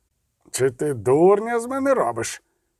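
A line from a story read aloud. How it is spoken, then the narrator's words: Sharp interruption. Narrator (Ukrainian): Різко обірвав Фулько Артевельда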